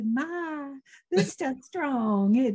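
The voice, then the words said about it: Charming little Southern twang. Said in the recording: “Put that little southern twang on him, the little charm”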